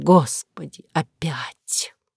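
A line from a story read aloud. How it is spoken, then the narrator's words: Silent inner groan. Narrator (Russian): я мысленно простонала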